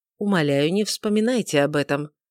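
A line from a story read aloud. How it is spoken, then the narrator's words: Soft but grave. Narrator (Russian): сказал Эрингтон мягко, но очень весомо и серьезно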